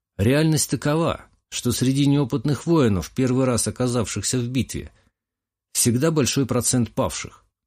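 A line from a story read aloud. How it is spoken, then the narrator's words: Calm. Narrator (Russian): спокойно ответил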